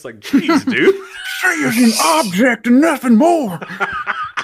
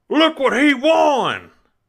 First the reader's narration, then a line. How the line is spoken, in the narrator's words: Jim Ross shouts